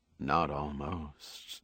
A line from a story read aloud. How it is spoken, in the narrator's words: Marilyn Mason said flatly, emotionlessly